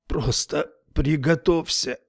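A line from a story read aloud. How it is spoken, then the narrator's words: Breathed out. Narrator (Russian): выдохнул он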